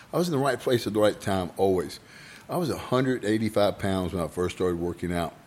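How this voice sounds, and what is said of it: Hoarse voice. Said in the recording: “I'm a little hoarse today.”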